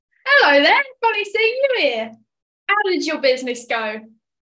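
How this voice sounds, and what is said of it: Put-on character voice. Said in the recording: “what's that impression?”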